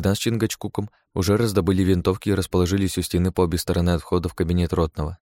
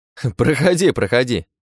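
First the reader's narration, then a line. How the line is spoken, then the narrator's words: Laughing. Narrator (Russian): рассмеялся Богдан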